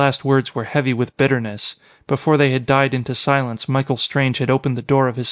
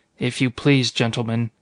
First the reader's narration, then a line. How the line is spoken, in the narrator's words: he said quietly